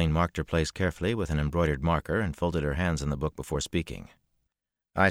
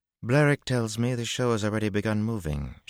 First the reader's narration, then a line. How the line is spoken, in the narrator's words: she said coolly